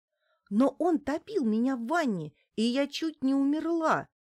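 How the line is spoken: Righteously angry exclamation. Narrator (Russian): воскликнула Неделькина в праведном гневе

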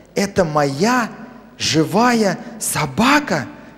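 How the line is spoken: Child's whisper. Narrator (Russian): прошептал малыш

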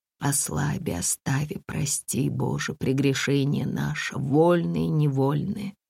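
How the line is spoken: Quiet moan in sleep. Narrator (Russian): Татьяна тихо застонала во сне

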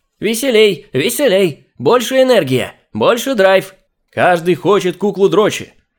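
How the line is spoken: Full-force yelling. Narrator (Russian): Изо всех сил вопил чувак

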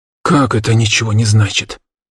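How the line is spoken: Growled. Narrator (Russian): Рыкнул мужчина без штанов

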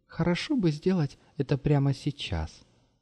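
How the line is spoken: Soft remark. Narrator (Russian): мягко заметила Маша

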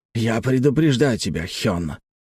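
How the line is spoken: Hiss. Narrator (Russian): прошипел Дон Сок

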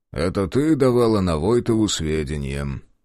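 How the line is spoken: Calm. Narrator (Russian): спокойно произнес

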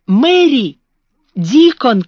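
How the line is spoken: Shout. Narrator (Russian): крикнул он

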